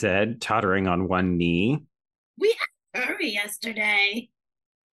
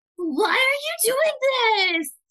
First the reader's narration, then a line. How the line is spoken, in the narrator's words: Sissy whined